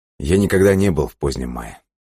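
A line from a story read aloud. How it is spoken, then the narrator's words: Plain. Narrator (Russian): сказал он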